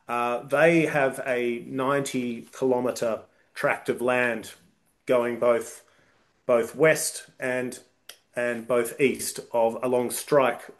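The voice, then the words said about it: Australian accent. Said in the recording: “being a Australian, as you can probably tell by my accent”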